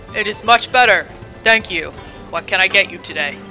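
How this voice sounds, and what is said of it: Booming, large character voice. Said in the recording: “booms in his large voice”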